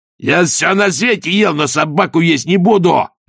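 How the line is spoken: Barked. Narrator (Russian): рявкнул Раклет

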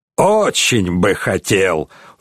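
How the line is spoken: Snort. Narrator (Russian): фыркнул крестоносец Готфрид фон Роденберг

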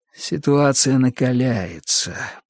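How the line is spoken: Barely audible mutter. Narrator (Russian): пробормотал он чуть слышно

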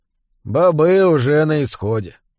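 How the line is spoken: Grave, sepulchral announcement. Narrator (Russian): гробовым голосом объявил Тиркл

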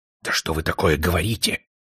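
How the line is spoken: Angry whisper. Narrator (Russian): сердито зашептал генерал-полковник

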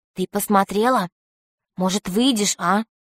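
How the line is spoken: Quiet question. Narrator (Russian): Юлька спросила тихо

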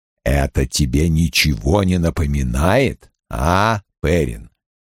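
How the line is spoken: Quiet private question. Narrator (Russian): Тихо, чтобы услышал только юноша, спросил Лойл

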